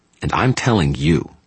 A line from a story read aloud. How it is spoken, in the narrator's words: the young man snarled in a muted voice